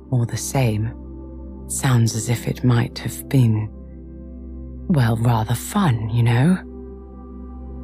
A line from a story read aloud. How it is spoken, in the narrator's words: he added wistfully